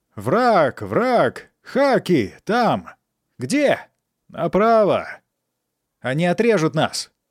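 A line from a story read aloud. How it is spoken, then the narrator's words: Many voices shouting at once. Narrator (Russian): Все кричали разом и на разных языках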